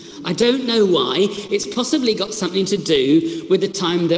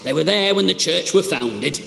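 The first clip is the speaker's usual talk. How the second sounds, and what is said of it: Put-on Yorkshire accent. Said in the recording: “I drift into a Yorkshire accent.”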